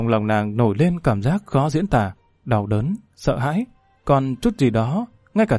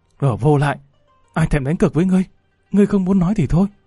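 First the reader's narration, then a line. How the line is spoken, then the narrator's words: Hissed through clenched teeth. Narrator (Vietnamese): nàng nghiến răng rít lên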